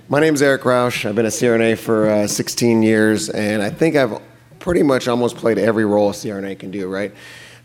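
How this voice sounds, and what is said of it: Raspy voice. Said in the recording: “raspy voice”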